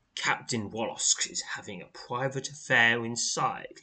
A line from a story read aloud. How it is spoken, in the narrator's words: he sneers